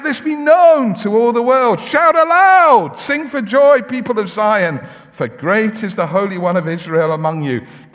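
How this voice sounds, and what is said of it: Loud shouting preaching voice. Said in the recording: “This is meant to be noisy. ... That's why I'm shouting a bit.”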